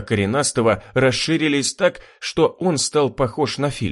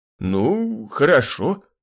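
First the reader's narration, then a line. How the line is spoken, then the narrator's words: Bearded man mumbling. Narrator (Russian): промямлил бородач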